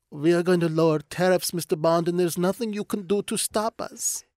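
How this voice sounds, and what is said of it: Bond villain voice. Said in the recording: “It sounds like a Bond villain stroking a cat going ... that voice”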